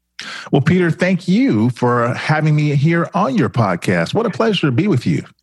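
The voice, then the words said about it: Polished broadcaster-style radio voice. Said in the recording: “you have a radio voice”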